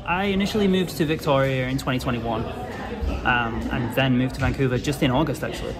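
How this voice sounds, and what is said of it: North Welsh accent. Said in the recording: “I hear the accent. ... I'm from North Wales in the UK.”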